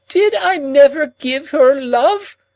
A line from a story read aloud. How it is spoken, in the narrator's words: cried Miss Havisham